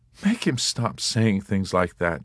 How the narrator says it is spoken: begged

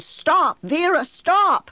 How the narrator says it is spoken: shouting

